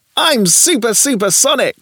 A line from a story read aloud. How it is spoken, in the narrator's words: shouted Jimmo